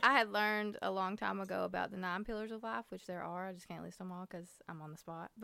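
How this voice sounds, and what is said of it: Thick regional accent. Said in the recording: “my accent's really thick ... People would tell me I sounded stupid.”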